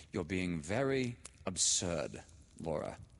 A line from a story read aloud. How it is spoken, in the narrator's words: she said coldly